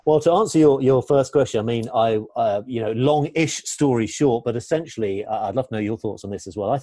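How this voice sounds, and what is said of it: Classy English accent. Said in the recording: “my English accents ... It sounds classy ... very Downton Abbey”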